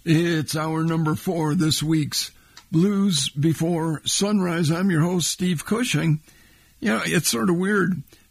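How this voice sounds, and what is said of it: Hoarse, worn-out voice. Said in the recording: “My voice is beat to hell all 3 days, including, it sounds like, today.”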